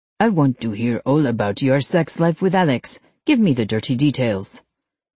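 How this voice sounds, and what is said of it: Falsetto voice with French accent. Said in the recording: “falsetto voice with a French accent is way too good”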